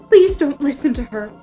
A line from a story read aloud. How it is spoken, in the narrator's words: cried